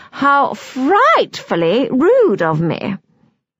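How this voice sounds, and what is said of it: Posh royal-family English accent. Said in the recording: “in a royal family accent”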